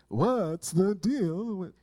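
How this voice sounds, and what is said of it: Bad stand-up comedian impression. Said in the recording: “my bad Seinfeld impersonation”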